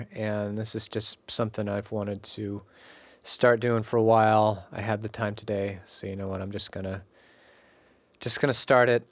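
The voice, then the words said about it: Congested voice from a cold. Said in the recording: “I am quite sick. I have a cold. My voice does not normally sound like this”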